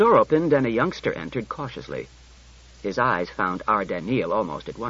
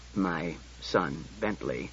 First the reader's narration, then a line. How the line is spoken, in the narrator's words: said Bailey, in a low voice